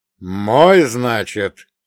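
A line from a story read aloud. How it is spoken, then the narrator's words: Growl. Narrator (Russian): рыкнул я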